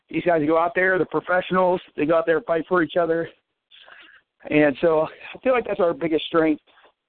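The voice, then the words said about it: Out of breath, breathy speech. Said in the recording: “sorry, I'm out of breath. I had to walk up some stairs here”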